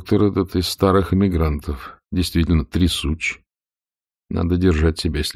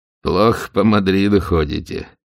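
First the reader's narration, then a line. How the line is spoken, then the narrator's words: Rattling, gleeful laugh. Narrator (Russian): дребезжаще рассмеявшись, ответил Отсуп, открыто радуясь его изумлению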